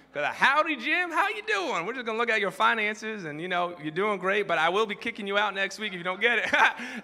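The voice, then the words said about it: Put-on Southern accent. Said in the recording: “had this Southern accent”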